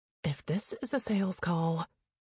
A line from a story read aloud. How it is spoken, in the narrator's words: I muttered to myself